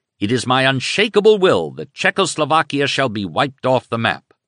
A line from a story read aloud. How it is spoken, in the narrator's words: he thundered